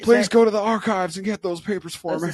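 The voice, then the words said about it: Imitated voice with Southern accent. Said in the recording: “my Bill Clinton sounds like Elvis. Whatever. Southern accents.”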